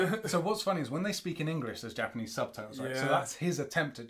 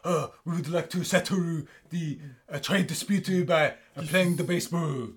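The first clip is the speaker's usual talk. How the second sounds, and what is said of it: Put-on Japanese accent. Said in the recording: “I'm going to put on a Japanese accent.”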